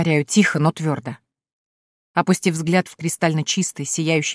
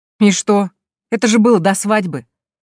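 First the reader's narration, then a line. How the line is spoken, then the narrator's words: Calm, dismissive. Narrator (Russian): Невозмутимо отмахивается он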